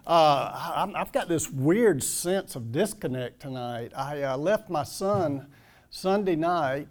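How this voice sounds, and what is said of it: Speaks with a noticeable regional accent. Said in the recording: “The accent, I can't do anything about”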